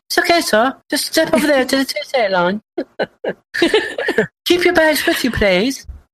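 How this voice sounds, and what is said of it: Put-on calm British announcer voice. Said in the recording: “a lot of the Newark airport announcements are all done with a British voice, and I think it's just to keep you calm”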